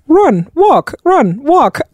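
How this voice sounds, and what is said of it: Bad imitation British accent. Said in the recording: “this British voice just going like... That's my bad British accent.”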